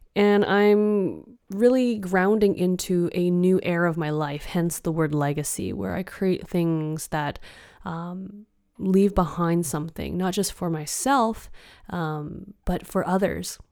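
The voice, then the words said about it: Non-native English accent. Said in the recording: “I am not from here, as my accent may tell.”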